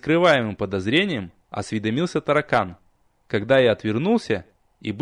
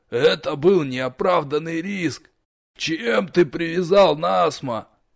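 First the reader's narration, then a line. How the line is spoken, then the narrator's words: Grumbling. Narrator (Russian): Нич пробурчал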